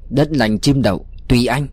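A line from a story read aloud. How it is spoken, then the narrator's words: Cold voice. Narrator (Vietnamese): giọng lạnh lùng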